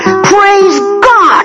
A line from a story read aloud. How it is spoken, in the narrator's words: he yelled